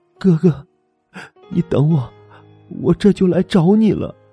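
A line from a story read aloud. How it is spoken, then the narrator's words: Choked sobbing. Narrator (Chinese): 徐兰哽咽哭了几声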